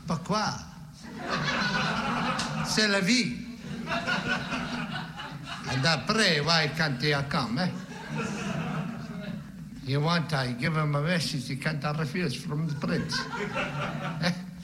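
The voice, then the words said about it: Put-on French-Italian accent. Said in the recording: “in the French, Italian accent”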